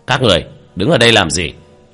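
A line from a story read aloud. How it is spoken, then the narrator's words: Stern leader shouting. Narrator (Vietnamese): một lãnh đạo nghiêm nghị quát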